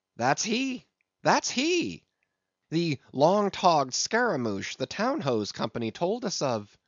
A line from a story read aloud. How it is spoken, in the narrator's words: Stubb had exclaimed